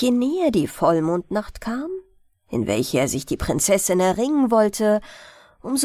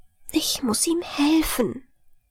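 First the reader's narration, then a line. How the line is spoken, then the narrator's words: Whispering to herself. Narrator (German): flüsterte sie vor sich hin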